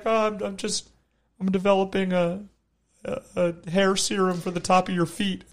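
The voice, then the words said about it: Imitates another person's voice. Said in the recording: “That was a perfect impersonation of my dad.”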